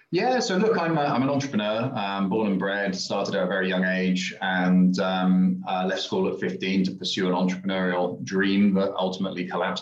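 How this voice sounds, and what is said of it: British accent, somewhat faded. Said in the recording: “You don't really have a native Dubai accent ... I'm a Brit ... I think I've even lost a bit of my British accent now”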